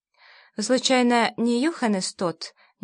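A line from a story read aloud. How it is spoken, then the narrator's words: Uncertain question. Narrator (Russian): неуверенно спросила я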